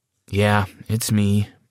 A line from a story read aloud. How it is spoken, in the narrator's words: I sighed